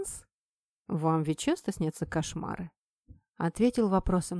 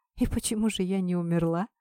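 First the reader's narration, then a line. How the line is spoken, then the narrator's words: Hoarse question. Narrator (Russian): хрипло спросила я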